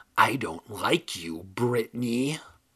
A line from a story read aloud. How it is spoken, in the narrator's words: The ugly dummy uttered in a hoarse whisper